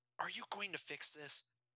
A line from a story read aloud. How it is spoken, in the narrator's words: Jason asked Barry, whispering so that they couldn't be overheard